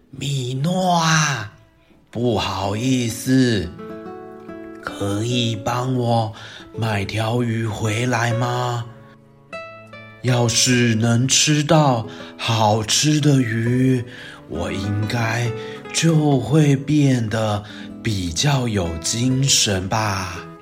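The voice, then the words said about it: Very weak, feeble old voice. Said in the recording (Chinese): “用着和平常不同、十分虚弱的声音说”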